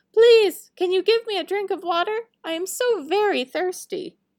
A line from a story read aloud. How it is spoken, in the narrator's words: called out